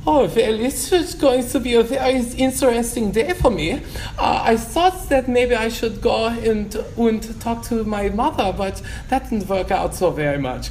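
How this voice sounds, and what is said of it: Put-on German accent. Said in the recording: “start talking with a German accent.”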